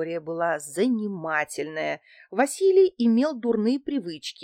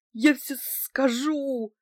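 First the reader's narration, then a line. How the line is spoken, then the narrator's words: Through sobbing. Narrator (Russian): донеслось сквозь рыдание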